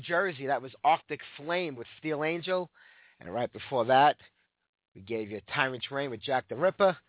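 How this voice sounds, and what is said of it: Hoarse, sore voice. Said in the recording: “I'm trying to rest my voice today. I'm really hoarse and really sore from being sick all week long”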